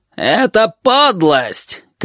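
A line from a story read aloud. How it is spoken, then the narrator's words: Vulture shouting over crowd. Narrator (Russian): крикнул стервятник, перекрывая возбужденный гул голосов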